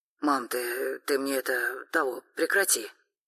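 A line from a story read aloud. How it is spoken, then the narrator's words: Slightly hoarse voice. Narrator (Russian): сказал Тёма слегка осипшим голосом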